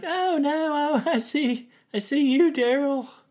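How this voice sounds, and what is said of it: Impression of Lydia. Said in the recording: “that was my impression ... That was really good.”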